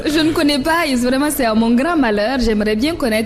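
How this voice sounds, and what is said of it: Strong French-speaking African accent. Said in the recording (French): “moi qui a un accent à couper au coupe-coupe”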